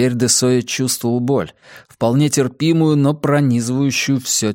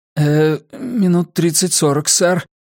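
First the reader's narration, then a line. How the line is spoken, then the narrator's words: Timid babbling. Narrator (Russian): пролепетал врач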